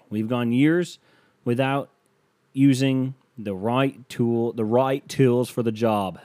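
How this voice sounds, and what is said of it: Put-on Australian accent. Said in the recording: “That's an Australian accent.”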